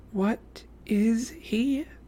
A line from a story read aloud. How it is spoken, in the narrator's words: she whispered